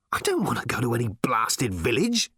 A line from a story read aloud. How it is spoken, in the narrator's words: snapped Ford